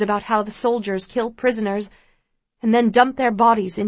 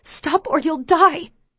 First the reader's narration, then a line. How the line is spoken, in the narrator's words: I hiss to myself